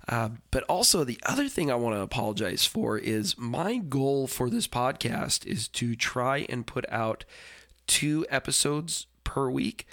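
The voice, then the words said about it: Congested, stuffy-nosed voice. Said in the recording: “my nose gets really stuffy ... I sound a little congested.”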